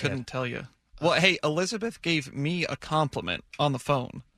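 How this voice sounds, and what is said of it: Southern drawl. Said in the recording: “You have a southern drawl.”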